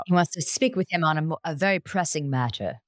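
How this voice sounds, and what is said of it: Impression of a university dean. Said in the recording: “That impression. ... It was spot on”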